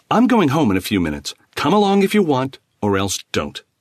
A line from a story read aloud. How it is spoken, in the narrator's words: Stung by the morose dismissal, Khan snapped